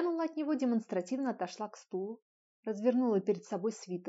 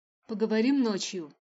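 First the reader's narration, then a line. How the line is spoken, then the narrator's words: Rude curt remark. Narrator (Russian): грубо бросил мужчина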